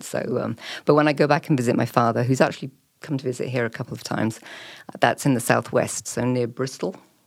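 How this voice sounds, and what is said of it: Neutral English BBC-style accent. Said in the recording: “a wonderful, beautiful uh, uh, English accent ... this nondescript BBC accent ... an English accent”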